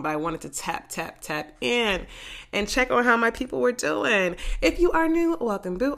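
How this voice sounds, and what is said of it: Congested, raspy voice. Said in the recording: “I'm still congested, so I apologize if my voice is raspy, if I cough”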